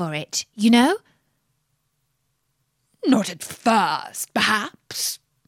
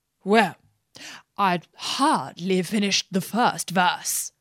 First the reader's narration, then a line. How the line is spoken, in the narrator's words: said the Hatter